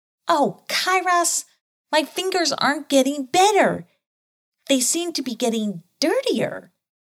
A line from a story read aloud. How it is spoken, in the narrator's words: he cried out